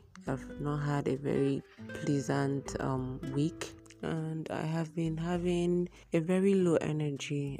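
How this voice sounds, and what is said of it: Low, weak, unwell-sounding voice. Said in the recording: “my voice is gonna be very low throughout this recording because I'm very unwell”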